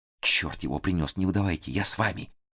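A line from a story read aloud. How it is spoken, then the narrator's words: Barely audible rustling whisper. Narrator (Russian): еле слышно прошелестел в ухо Фондорину Корнет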